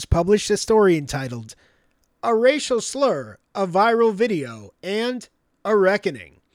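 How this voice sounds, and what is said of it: Newscaster-style reading voice. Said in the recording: “That's my news voice.”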